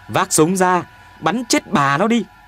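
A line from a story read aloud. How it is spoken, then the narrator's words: Shouting. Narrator (Vietnamese): Tôi hét lên với Tuyền Béo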